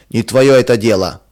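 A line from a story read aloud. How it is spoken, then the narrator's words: Rude reply. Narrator (Russian): грубо отвечал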